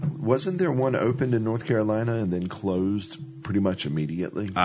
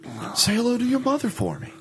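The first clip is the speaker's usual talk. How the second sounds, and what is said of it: Mark Wahlberg impression. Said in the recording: “I can't do a Mark Wahlberg impression.”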